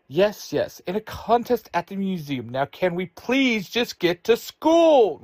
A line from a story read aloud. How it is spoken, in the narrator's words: Ruthie shouts